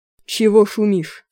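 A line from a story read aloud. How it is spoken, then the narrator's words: Irritated. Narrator (Russian): раздраженно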